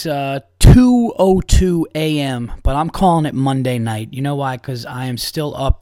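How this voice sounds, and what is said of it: Energetic, upbeat voice, not tired. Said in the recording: “as you could hear in my voice, it's 2 o'clock in the morning, but I'm not tired. I got a little pep in my step tonight”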